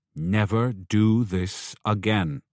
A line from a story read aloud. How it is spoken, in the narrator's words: in a stern voice she warned him